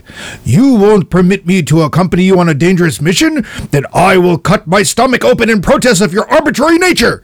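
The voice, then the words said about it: Bad put-on samurai voice. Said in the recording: “my terrible samurai impersonation.”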